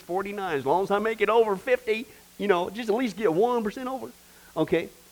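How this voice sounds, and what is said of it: Put-on Southern accent. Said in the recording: “apparently you talk with a southern accent when you say that”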